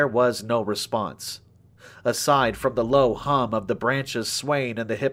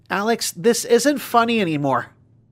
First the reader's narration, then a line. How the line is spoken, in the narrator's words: shouted in a combined mix of panic and anger